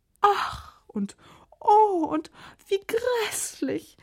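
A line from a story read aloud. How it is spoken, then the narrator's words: Wailing, several queens. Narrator (German): jammerten die Königinnen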